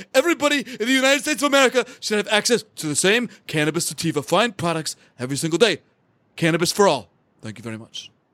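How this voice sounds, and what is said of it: Imitates another person's voice. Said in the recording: “That was my Bernie Trump ... Your Bernie's pretty good.”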